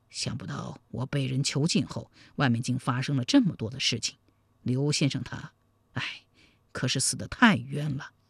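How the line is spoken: Surprised, sighing after pause. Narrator (Chinese): 星剑很是惊讶，半晌才叹道

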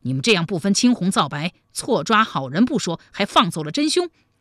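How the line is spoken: Angry. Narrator (Chinese): 王翰怒道

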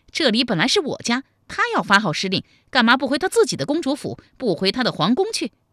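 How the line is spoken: Furious. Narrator (Chinese): 武灵觉大怒，说

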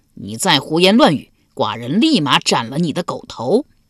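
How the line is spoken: Roaring in anger. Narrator (Chinese): 齐襄公大吼道

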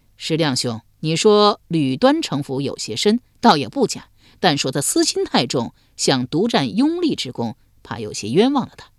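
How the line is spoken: Laughing. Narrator (Chinese): 李治笑道

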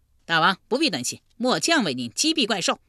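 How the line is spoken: Loud. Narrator (Chinese): 车右窦伯大声说道

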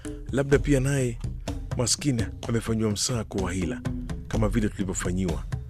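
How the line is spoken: Fearful. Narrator (Swahili): alitamka kwa hofu

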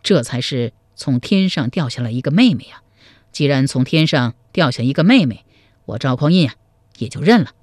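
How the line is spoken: Soft sigh. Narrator (Chinese): 赵匡胤轻叹一声说

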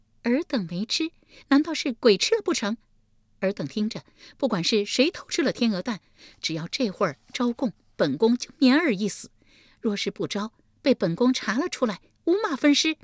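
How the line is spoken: Cold sneer. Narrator (Chinese): 丽姬冷笑一声道

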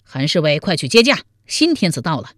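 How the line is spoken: Shouting. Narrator (Chinese): 王彦生高声喊道

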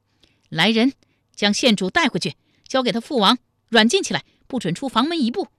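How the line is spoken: Loud command. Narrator (Chinese): 又大声命道

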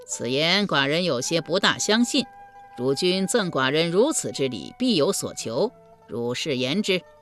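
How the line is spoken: Laughing reply. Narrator (Chinese): 于君笑回道

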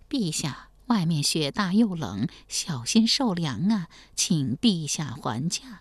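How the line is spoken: Soft urging. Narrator (Chinese): 王继恩小声劝道

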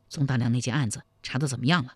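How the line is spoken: Low-voiced question. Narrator (Chinese): 低声问道

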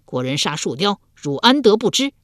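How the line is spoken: Angry. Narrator (Chinese): 五鬼怒道

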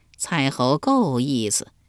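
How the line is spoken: Chuckling. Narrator (Chinese): 树雕笑呵呵地说道

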